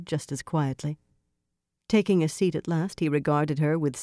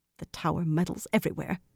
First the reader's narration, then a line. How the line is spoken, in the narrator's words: Tenobia muttered